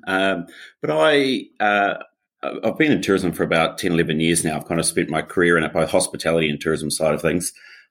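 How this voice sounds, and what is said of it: New Zealand accent. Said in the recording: “obviously I'm a Kiwi. My accent is going to be a little strange for some.”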